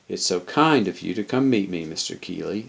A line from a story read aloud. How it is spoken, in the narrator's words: murmured